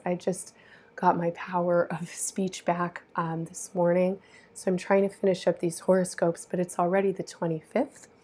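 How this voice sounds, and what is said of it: Voice sounds sick. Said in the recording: “I've been sick. You might hear it in my voice.”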